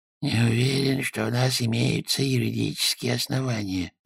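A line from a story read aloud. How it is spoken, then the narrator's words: Muttering. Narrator (Russian): пробормотал он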